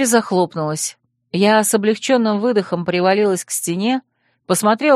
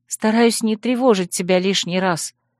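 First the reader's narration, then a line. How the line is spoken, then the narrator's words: Tired. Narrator (Russian): устало объяснила я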